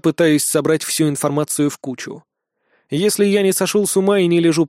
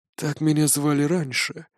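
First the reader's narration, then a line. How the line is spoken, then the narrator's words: Corpse answering quietly. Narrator (Russian): тихо отвечает труп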